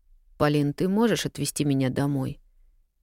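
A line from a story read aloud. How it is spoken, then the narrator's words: Barely audible plea. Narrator (Russian): Чуть слышно попросила она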